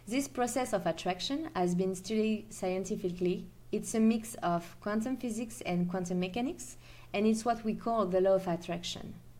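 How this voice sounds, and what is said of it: French accent. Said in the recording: “the French accent”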